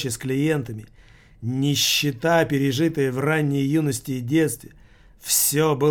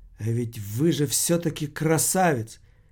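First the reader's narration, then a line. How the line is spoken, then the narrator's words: Quiet. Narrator (Russian): Одна из них тихо сказала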